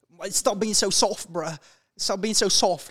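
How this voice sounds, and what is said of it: Andrew Tate accent impression. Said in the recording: “Do his accent, come on.”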